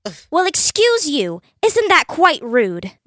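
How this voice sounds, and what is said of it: Unconvincing put-on British accent. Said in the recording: “You need to work on your accent, honey. Anyone can tell that you're a wretched tea drinker.”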